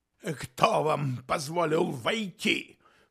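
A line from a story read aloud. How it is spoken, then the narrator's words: Booming. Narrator (Russian): прогремел Ньюкомен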